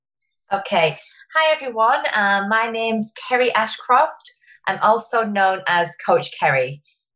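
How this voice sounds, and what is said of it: Slight English accent. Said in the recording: “there's a slight accent”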